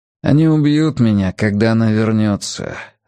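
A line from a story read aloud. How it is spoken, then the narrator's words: Calm reply. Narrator (Russian): ответил Рори спокойно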